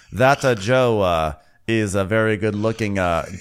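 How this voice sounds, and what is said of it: Chris Pratt Super Mario accent. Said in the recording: “I'll try to give the dad more of a Chris Pratt Super Mario accent.”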